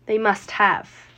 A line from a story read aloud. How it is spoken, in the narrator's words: answered Grandpa Joe